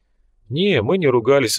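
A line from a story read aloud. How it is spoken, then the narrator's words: Sighing. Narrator (Russian): вздохнул Фрол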